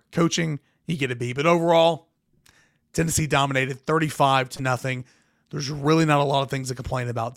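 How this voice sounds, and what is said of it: Strained, cracking damaged voice. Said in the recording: “I'm going to go gargle some salt water. I'm going to get this voice back right ... my voice just cracked right there. I know it sucks. I know it's gross.”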